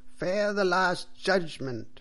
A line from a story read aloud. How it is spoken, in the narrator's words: cried the priest loudly and angrily